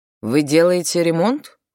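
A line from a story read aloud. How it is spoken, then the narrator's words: Cold question. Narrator (Russian): холодно спросила Леа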